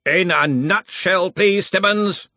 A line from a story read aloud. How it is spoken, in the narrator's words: growled Ridcully